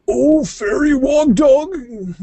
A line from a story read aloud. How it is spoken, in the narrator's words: cried Rowsby Woof